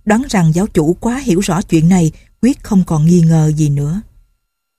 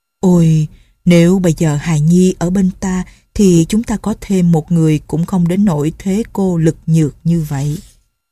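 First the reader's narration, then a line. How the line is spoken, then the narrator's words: Sighing. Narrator (Vietnamese): Nhậm Ngã Hành ... thở dài nói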